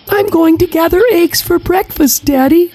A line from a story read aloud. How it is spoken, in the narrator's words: she squealed with glee